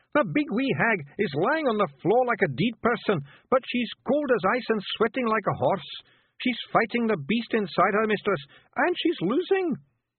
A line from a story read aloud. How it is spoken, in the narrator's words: Rob Anybody yelled